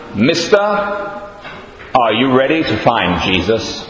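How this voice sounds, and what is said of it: Put-on American accent. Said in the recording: “Sorry about the American accent.”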